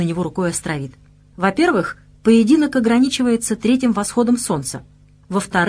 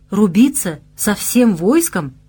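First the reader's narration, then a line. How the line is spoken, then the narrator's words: Impressed exclamation. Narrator (Russian): воскликнул впечатленный уготованным испытанием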